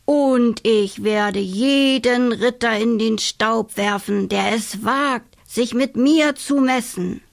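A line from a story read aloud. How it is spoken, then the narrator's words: Announced in disguised voice. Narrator (German): verkündete sie mit verstellter Stimme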